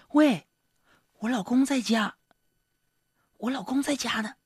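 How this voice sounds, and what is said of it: Quiet, whispered speech. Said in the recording (Chinese): “小声的说”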